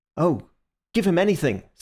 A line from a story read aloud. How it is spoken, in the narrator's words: said Syme eagerly